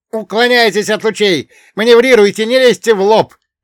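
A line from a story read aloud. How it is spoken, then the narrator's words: Shouting over radio. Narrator (Russian): кричал Фулинь в эфир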